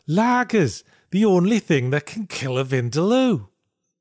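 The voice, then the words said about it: Poor put-on Liverpudlian accent. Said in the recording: “That was a terrible Liverpudlian accent I just did ... You thought I sounded like a Beatle.”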